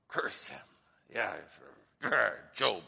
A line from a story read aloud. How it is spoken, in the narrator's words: Satan mutters under his breath